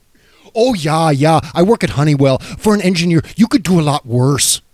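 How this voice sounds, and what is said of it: Put-on regional accent. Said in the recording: “Love that accent.”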